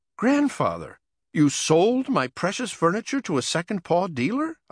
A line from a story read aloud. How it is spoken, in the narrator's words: I squeaked